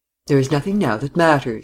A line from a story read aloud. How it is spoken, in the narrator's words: he said, adding quickly